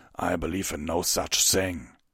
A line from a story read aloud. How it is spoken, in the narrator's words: Vanguard snapped